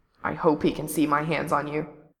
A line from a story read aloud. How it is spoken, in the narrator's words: in a quiet growl